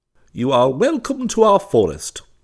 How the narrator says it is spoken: chirped Robin in a sedate and dignified tone

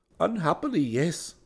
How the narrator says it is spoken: Chada said sadly

